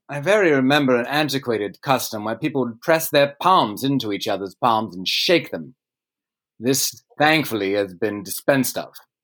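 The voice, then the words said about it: Speaks in a put-on accent. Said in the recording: “I'm gonna go back to not an accent. Going down a bad rabbit hole there.”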